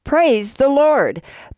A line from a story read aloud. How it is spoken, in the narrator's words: she shouts